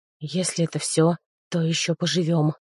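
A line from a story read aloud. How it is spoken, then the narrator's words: Quiet whisper. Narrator (Russian): тихо прошептал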